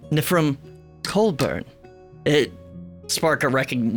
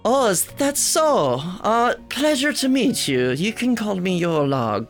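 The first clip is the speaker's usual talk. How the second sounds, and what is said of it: Put-on character accent. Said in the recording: “Gotta go back to the accent.”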